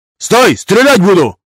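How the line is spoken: Hysterical soldier shouting. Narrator (Russian): Истерически выкрикнул сержант-пехотинец

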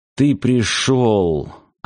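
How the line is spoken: Relieved sigh. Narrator (Russian): облегченно вздохнул он

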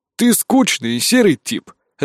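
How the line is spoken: Laughing. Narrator (Russian): рассмеялся древ

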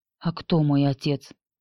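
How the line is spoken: Faint whisper, barely parted lips. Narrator (Russian): Едва разлепив губы, прошептала Анни

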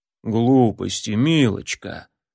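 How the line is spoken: Grumble. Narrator (Russian): проворчал Турмалин

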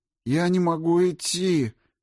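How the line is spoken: Moaned. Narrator (Russian): простонал Морозов

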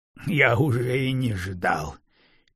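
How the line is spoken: Coughing laugh, frightened. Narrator (Russian): Криницкий закашлялся сквозь смех … он очень напуган

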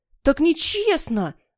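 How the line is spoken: Yell. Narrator (Russian): завопил Генри

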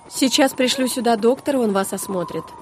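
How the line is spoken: Quick speech. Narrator (Russian): быстро произнес спасатель

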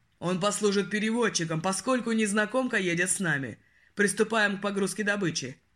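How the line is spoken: Commanding. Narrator (Russian): Отдал приказ Ярл

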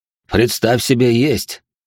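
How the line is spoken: Smirking grunt. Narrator (Russian): хмыкнул он

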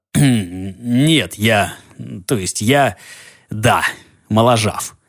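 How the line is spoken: Dry grumble through teeth. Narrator (Russian): проворчал сквозь зубы сухо

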